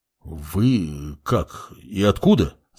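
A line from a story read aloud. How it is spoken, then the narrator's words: Mumbled. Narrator (Russian): забормотал Калека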